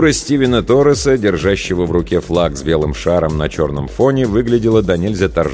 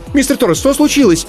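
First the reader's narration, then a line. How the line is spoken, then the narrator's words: Sharp cry, interrupting. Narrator (Russian): скрикнула Аиша, перебивая обеспокоенный голос Владимира из динамика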